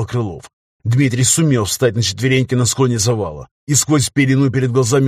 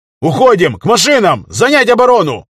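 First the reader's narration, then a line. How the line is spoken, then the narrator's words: Shouted commands. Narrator (Russian): кричал Крылов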